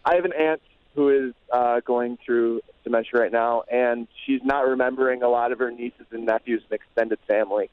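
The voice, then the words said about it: Choked-up, emotional voice. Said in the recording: “I got choked up”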